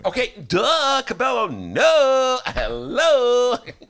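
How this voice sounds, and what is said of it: Imitates a singer's voice. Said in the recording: “my imitation of the singer in that song”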